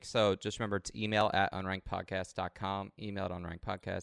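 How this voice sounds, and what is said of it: Exaggerated announcer-style podcast voice. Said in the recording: “What a podcast voice.”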